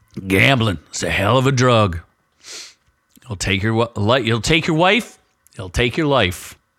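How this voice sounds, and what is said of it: Hoarse, strained voice. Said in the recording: “my voice is a little doing the best I can with what I got. But I'm definitely losing my voice”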